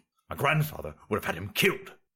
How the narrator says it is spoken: the Emperor grumbled

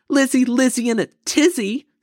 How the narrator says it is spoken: Sister shouted back

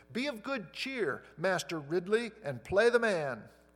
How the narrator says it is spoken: the dying Latimer cried out

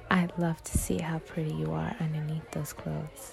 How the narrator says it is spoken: He whispered in my ear

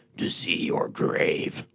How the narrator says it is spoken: Rawhead rumbled softly

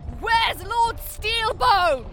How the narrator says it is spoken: she shouted down to Lacolith

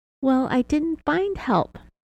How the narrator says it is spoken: Sherri started smiling creepily and giggling annoyingly again, as she stated

